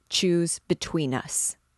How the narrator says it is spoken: said he, coldly

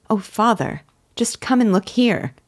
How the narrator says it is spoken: exclaimed

